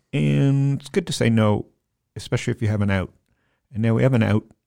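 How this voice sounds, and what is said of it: Regional accent on the word out. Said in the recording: “Does that give away my accent? Out? ... A little bit.”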